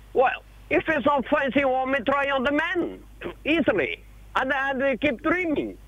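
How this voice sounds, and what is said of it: Portuguese-accented English. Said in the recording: “I'm trying to place your accent. ... I am a Portuguese ... I speak very, very bad English.”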